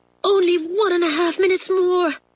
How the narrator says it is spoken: panted Isabel

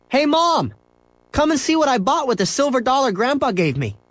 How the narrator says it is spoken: yelled

